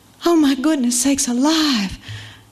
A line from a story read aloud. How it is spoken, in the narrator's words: let out a sigh